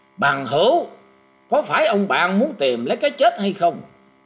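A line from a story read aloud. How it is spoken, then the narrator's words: Shout. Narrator (Vietnamese): Tiếng quát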